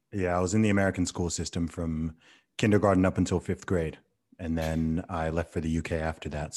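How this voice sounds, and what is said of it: Hybrid American and British accent. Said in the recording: “you don't sound like an Englishman ... It's some hybrid combination between the two now ... a very, very pleasant accent”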